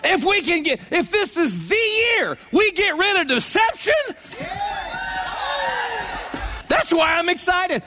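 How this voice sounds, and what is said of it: Excited, high-pitched voice. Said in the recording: “my voice is this high... let your voice get that high... I'm not faking this”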